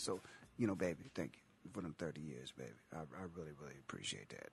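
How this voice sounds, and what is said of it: Sexy seductive voice. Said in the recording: “I might put my sexy voice on ... I don't need a sexy voice”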